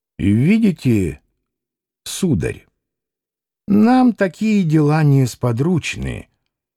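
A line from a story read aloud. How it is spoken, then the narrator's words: Slow old man. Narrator (Russian): медленно промолвил старик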